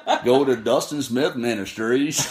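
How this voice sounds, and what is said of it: Slow put-on Southern accent. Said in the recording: “Say it in your southern accent... Now you got the slow southern.”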